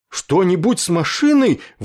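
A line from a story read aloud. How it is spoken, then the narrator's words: Terrified yell. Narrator (Russian): в ужасе заорал он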